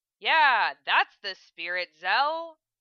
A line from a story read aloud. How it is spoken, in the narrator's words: Lena said sarcastically